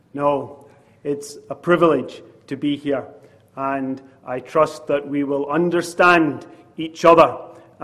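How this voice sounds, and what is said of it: Unfamiliar non-local accent, slow speech. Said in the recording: “I'm a long way from home. Yes, my accent is a little peculiar, and I will speak slowly so that you Kentuckians can keep up”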